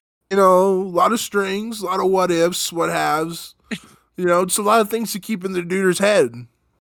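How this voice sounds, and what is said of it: Imitates another person's voice. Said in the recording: “That is a pretty good impression.”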